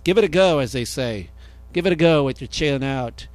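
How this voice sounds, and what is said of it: Poor put-on Australian accent. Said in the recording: “this is my terrible Aussie accent”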